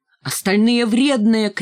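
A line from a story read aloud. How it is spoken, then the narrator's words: Shouted. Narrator (Russian): крикнула Ленка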